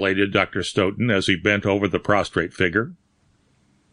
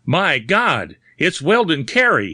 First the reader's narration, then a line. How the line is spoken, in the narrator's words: he shouted, in sudden horror